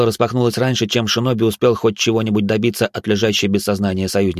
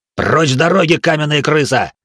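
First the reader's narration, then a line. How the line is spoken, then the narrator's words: Samurai's bark. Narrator (Russian): рявкнул первый из четверых самураев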